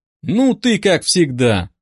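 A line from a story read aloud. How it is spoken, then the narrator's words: Drawling. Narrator (Russian): протянул Даня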